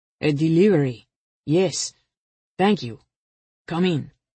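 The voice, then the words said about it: Heavy foreign accent. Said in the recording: “one of them said in a heavy accent.”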